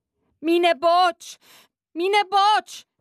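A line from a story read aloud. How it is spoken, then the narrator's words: Called out. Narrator (German): rief er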